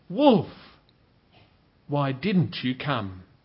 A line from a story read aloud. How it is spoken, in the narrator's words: cried